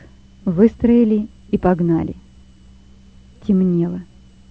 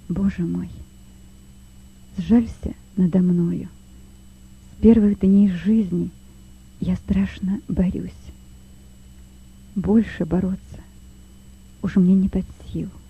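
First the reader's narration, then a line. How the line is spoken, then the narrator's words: Quiet whisper. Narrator (Russian): тихо прошептал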